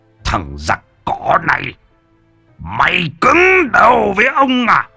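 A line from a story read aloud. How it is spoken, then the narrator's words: Hissing old man. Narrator (Vietnamese): Lão nói như rít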